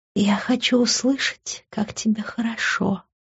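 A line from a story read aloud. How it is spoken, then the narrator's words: Whisper. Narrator (Russian): прошептала она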